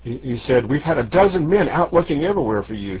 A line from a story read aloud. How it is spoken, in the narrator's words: he gasped breathlessly